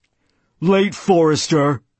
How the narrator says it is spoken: he said in his already matured voice

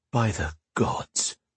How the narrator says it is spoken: he murmured

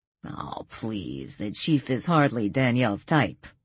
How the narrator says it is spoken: Joe scoffed

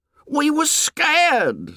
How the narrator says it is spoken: said Piggy excitedly

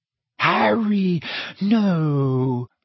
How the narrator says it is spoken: moaned Hermione

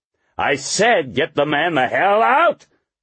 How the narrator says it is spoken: Horlocker roared

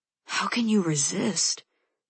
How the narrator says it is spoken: He asks under his breath

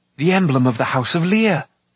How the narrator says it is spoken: Taran cried

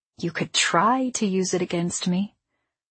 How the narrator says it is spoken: I corrected him quietly

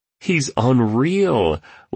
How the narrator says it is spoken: laughed the entrepreneur, clearly entertained by yet another stunt of this maverick industrialist

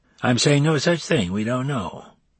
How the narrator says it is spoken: Seams claimed in that same bland voice that might easily conceal deception

